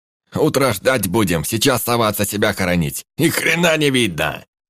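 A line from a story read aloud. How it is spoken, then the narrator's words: Shout over engine. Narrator (Russian): Прямо в ухо прокричал гном, заглушая мотор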